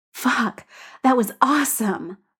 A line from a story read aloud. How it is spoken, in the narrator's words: Bull pants